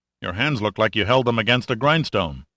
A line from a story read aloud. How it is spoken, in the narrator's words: stopped abruptly and said sharply